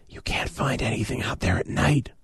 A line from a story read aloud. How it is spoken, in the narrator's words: I whispered